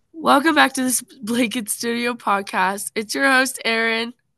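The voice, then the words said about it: Rough, unwell-sounding voice. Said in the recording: “I sound so terrible ... I've been sick for the past few days, and so my voice is a little rough”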